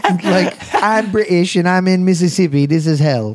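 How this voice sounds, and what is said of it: Poor attempt at English accent. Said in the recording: “I can't do an English accent. Why do I try?”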